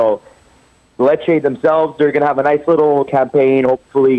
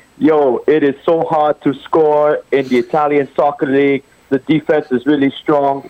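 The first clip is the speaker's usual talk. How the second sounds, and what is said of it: Imitates another person's voice. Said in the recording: “I try my best Lukaku impression.”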